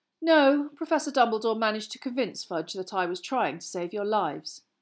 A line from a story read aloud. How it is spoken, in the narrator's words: he sighed